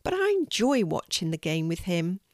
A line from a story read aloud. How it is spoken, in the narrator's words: replies Casey sadly